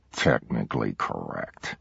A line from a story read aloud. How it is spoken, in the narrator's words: Milo mumbled